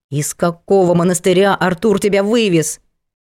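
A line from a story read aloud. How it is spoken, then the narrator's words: Sharp bark. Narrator (Russian): рявкнула Аделаида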